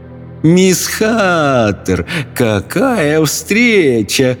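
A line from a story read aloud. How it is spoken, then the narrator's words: Laughing witch. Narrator (Russian): рассмеялась ведьма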